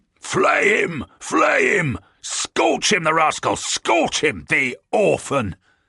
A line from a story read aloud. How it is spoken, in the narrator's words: He is delighted and amused, and every so often there is a pause in his loud, hearty roars of laughter, and one hears again